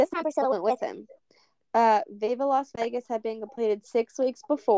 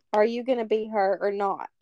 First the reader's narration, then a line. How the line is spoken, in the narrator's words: he said